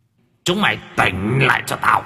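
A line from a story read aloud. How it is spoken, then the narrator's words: Ghostly powerful shout. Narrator (Vietnamese): Tiếng quát mang theo quỷ lực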